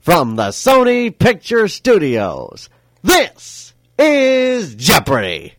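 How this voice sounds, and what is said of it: Game show announcer voice. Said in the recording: “imitating Johnny Gilbert ... you give it that delivery ... you're doing the Johnny Gilbert bit”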